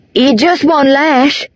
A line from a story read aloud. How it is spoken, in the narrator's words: Benner cried, racing behind me